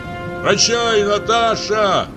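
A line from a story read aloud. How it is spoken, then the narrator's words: Shouted. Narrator (Russian): крикнул помещик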